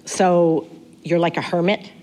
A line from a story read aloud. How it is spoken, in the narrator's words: said